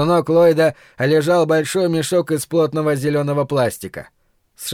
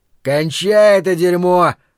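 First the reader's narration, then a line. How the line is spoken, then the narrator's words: Shout. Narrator (Russian): крикнул Ллойд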